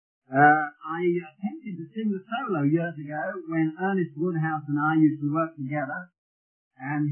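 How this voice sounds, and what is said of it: Birmingham English accent. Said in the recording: “my accent ... Coming from Birmingham, Brummagem, we call it, in England.”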